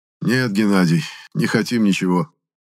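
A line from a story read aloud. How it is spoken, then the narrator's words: Sadder sigh. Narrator (Russian): еще печальнее вздохнул Фаулер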